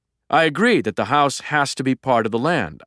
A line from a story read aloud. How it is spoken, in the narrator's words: I said